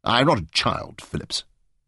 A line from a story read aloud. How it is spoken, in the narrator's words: said stiffly